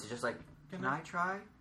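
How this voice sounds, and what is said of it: Very timid voice. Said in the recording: “a very timid voice.”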